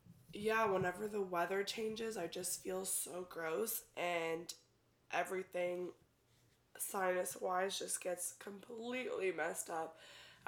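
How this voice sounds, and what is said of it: Congested voice with voice cracks. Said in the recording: “I'm sorry if I sound gross. I have a sinus infection and it makes ... me sound like a little boy going, oh my god, did you hear that voice crack? ... it makes me sound like a little boy going through puberty ... I get so congested.”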